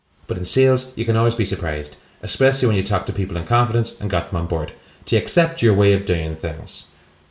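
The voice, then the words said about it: Very poor put-on Irish accent. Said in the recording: “do that sentence in an Irish accent ... the worst Irish accent anyone's ever heard? I've never heard you do a worse one.”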